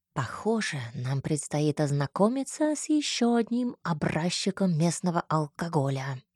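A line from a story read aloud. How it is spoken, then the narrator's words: Whispered. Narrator (Russian): шепнул мне Всеволод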